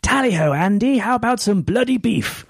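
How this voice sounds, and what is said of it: Mock stereotypical posh English accent. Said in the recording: “for Americans, English people are members of the royal family or they are Cockneys ... laugh at my accent all the time”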